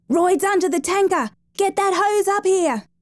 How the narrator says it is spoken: Haycock yelling at the top of his voice

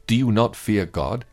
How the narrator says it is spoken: he said

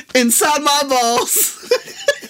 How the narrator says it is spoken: I yell out

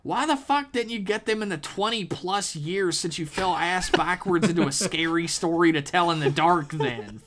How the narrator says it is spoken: Flinch yelled

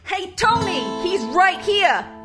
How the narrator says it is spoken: some son of a bitch would scream

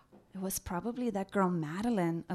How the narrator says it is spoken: Alethea and I whispered to each other

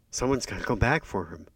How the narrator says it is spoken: said Elena

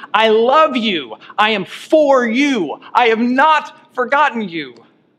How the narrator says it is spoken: God's words screaming

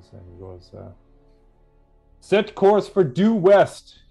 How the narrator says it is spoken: he shouts out

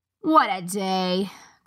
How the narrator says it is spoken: groaned the guard with the pink nose

